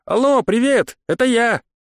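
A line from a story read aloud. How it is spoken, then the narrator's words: Joyful yell. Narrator (Russian): веселый голос радостно завопил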